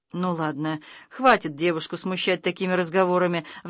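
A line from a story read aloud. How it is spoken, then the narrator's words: Noblewoman sighing. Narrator (Russian): вздохнула боярыня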